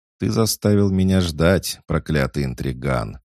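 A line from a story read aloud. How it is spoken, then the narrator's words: Laughing tall broad man. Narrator (Russian): Засмеялся высокий, плечистый мужчина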